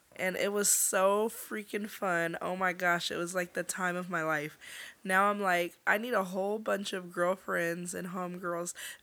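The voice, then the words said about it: Hoarse, partly lost voice. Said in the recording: “as you can tell, my voice is somewhat gone”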